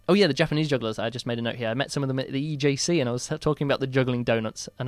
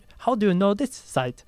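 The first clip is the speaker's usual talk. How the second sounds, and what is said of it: Deliberately bad put-on Japanese accent. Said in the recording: “my worst Japanese accent there ... it was a Japanese accent”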